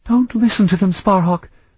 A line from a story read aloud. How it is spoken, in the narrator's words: Sophronia said in a shrill voice